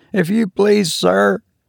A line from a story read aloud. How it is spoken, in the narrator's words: faltered Robert